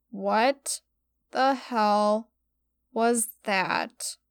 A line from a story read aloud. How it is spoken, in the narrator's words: I groaned